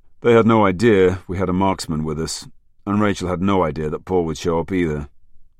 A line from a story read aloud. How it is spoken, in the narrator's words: Jackman sighed